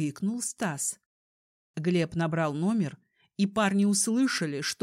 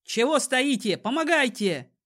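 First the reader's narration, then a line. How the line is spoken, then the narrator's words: Shout. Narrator (Russian): крикнул Стас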